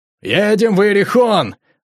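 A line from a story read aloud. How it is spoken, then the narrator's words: Joyful shout. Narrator (Russian): радостно закричал Лейн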